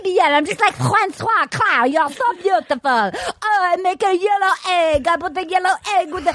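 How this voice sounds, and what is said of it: Exaggerated mock French accent. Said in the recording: “That's not a French accent ... my most racist accent ever. Every accent I do is racist ... That's the accent”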